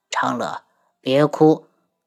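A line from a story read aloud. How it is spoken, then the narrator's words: Soft gentle voice. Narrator (Chinese): 东方铎轻声道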